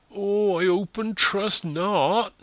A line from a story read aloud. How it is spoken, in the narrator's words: moaned